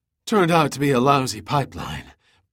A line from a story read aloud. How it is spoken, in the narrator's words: Pitt gasped in exhaustion